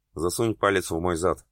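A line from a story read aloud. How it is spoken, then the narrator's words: Growled. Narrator (Russian): прорычал Ян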